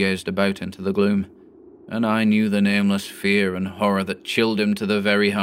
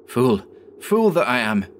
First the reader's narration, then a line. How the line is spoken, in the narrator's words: cried Sutherland a little fiercely